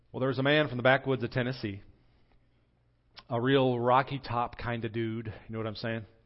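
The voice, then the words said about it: Put-on country twang accent. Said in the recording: “You like my twang there? I practiced that a couple times.”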